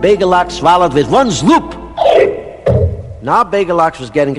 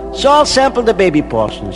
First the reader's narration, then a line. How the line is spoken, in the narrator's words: said